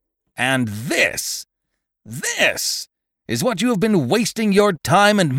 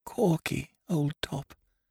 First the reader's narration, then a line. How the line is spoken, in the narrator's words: I whispered faintly